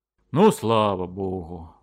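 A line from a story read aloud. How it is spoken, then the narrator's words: Relieved exhale. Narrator (Russian): выдохнул Белых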